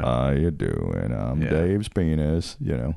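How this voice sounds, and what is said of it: Slow gloomy Eeyore-like character voice. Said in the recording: “I envision my penis's voice as being kind of like Eeyore.”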